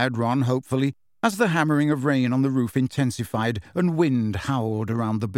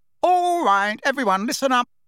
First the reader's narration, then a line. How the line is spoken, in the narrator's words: said loudly